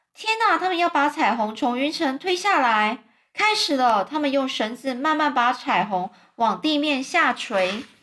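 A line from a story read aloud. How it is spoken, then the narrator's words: Very loud. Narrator (Chinese): 詹姆斯很大声的说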